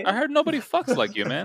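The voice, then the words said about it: Impression of the character Gaston. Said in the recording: “That was a great impression of Gaston, man. That was spot ... perfect ... On.”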